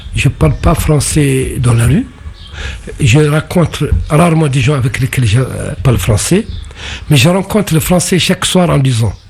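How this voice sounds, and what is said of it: Strong non-native French accent. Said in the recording (French): “t'as un accent terrible, tu sais pas prononcer”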